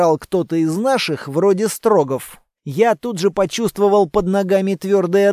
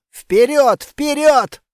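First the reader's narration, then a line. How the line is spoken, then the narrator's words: Yelling. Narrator (Russian): заорал я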